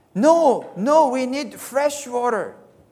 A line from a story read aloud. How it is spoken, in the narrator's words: They cried back